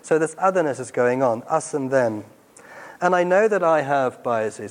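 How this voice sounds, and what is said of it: Afrikaans South African accent. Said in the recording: “People hear my accent, and I get this assumption of ... you're an Afrikaans South African.”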